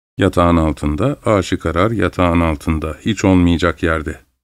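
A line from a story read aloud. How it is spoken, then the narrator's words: Excited murmur. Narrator (Turkish): diye mırıldandı Mitenka birden heyecanlanarak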